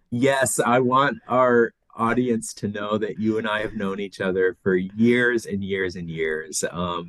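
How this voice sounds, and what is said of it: Non-Australian accent. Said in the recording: “there's an accent here as well. So you weren't born in Australia.”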